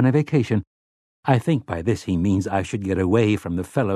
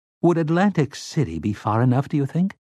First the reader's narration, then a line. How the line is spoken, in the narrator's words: Tower asked timidly